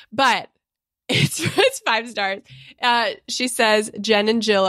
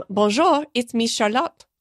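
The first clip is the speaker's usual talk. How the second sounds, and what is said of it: Put-on French accent. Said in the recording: “I'm so sorry that I did that accent.”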